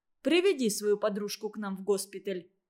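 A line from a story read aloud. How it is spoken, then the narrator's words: Plain. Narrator (Russian): сказал Злобин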